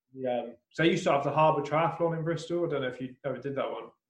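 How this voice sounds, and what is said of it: Bristol English accent. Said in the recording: “I can tell by the accent”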